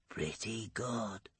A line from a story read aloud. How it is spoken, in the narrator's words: he whispers